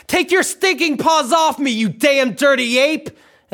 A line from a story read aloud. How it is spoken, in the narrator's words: a Charlton Heston yell